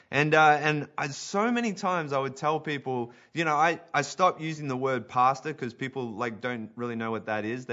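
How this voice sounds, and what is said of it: Australian accent. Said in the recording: “I stand out in Canada... The moment I talk, the moment things start coming out of my mouth and my Aussie accent”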